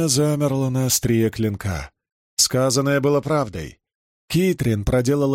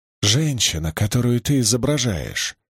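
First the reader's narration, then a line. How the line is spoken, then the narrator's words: Whispered. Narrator (Russian): шепнула Кэрри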